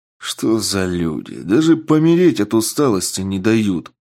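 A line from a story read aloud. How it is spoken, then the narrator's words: Irritated mutter. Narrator (Russian): с раздражением пробормотал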